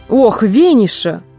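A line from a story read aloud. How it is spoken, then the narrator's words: Irritated exclamation. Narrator (Russian): раздраженно воскликнула Фанни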